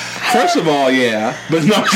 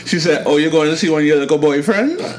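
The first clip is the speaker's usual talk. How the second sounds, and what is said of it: Put-on Trinidadian accent. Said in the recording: “In her best Trini accent,”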